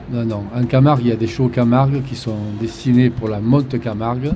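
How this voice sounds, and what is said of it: Southern French accent. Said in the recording (French): “je parle du sud parce que vous avez un accent un petit peu particulier”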